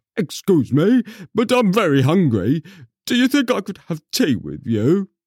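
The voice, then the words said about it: Put-on tiger character voice. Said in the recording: “I've got to do a tiger voice now”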